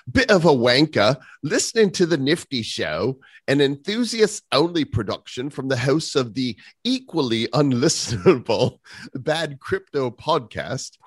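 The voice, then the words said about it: Put-on posh British accent. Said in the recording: “a bit of a British wanker accent”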